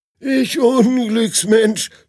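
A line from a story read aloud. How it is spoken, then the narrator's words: Groaning. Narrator (German): stöhnt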